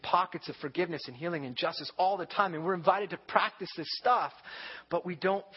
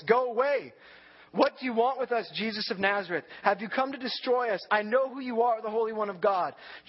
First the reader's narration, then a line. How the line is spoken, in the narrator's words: He cried out at the top of his voice